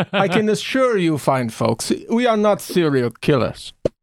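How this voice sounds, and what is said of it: Sinister serial-killer character voice. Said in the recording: “he's even got the serial killer accent”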